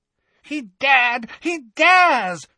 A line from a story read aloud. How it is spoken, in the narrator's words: shrieked Bellatrix incoherently